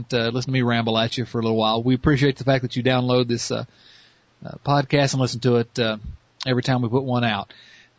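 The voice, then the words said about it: Strong Southern American accent. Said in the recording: “this ridiculous Southern accent.”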